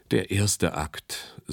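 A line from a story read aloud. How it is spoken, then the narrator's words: Sighing. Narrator (German): seufzte er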